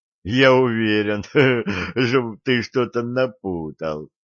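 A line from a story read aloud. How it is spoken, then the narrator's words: Laughing. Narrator (Russian): смеялся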